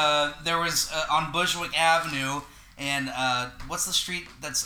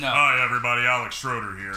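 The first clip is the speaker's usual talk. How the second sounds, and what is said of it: Imitates another person's voice. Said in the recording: “Is that what I sound like? ... my Alex impression.”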